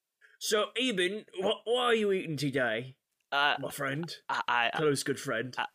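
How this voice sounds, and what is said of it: Put-on British accent. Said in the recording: “your voice sounds kind of weird... I've been to Britain, so I've picked up a bit of an accent.”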